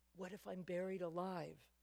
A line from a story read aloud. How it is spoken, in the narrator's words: our son Seth was a little boy, whispered